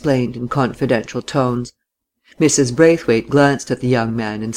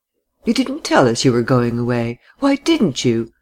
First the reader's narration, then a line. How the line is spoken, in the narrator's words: asked Laura in her distinct tones, between laughing and reproach